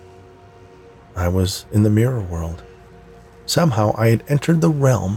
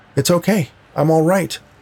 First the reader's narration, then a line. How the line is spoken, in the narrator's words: I shouted